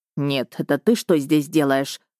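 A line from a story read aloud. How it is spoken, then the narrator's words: Furious hiss. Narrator (Russian): взбешенно прошипел мой мужчина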